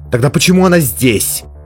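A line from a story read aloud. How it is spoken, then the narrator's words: Barely restrained furious exclamation. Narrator (Russian): воскликнула Мелис, едва сдерживая взрыв ярости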